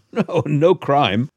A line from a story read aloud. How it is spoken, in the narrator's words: said Sherlock Holmes, laughing